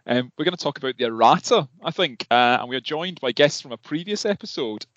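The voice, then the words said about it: Poor put-on Scouse accent. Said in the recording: “I was challenged to do a Scouse accent in a previous podcast, so this is my terrible attempt at it.”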